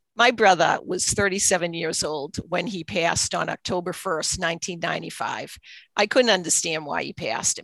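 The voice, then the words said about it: Boston accent. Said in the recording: “it's a Boston accent, even though I live in Pennsylvania, it's a Boston accent.”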